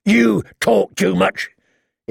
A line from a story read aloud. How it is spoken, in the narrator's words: he grumbled